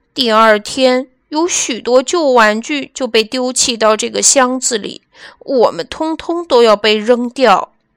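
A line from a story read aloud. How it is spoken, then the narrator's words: Sighing. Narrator (Chinese): 威利叹气道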